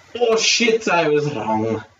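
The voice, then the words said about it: Put-on Scottish accent. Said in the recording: “That's my Scottish accent”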